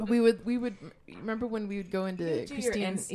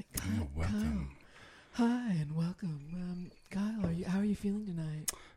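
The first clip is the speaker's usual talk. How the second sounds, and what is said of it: Smooth put-on radio host voice. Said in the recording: “You would do your radio voices.”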